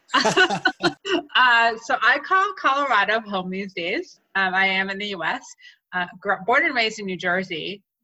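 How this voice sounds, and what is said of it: American accent. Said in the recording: “American ... I detect a little bit of an accent”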